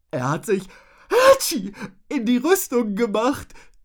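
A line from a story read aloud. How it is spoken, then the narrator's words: Giggling. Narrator (German): stellte Rotznase kichernd fest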